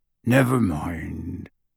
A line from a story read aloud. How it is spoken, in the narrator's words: he said gruffly